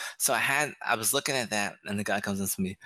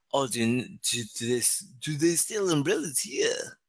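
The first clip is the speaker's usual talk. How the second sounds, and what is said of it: Terrible made-up accent. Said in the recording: “That's the terrible accent ... I just made that one up right now”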